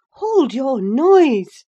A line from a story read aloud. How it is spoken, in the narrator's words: cried I, hastily, enraged at her clamorous manner